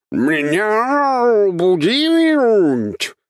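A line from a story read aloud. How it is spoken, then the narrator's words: Monster's roar. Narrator (Russian): взревело чудовище на очень знакомом мне языке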